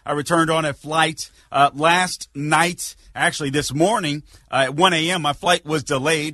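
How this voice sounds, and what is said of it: Slightly raspy voice. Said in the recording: “my voice is a little raspy, it is”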